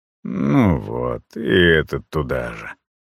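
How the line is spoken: Mutter. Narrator (Russian): пробормотал я

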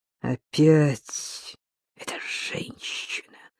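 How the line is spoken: Rustling, hissing voice. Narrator (Russian): прошелестела мать голосом, больше похожим на шипение

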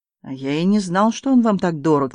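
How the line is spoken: Mocking. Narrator (Russian): насмешливо сказал Владимир

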